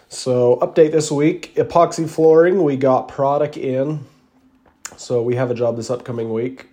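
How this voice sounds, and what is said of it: Rough voice, sounds sick. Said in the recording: “My voice is not very good. I got a cold this week, so excuse me if I'm coughing on this one.”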